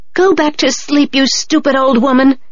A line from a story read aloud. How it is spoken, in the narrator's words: Hatsumomo shouted at her